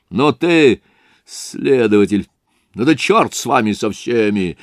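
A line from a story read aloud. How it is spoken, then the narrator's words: Curt, sharp. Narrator (Russian): отрезал Разумихин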